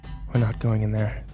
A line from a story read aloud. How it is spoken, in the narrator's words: I whispered